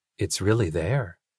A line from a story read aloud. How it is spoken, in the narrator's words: he said quietly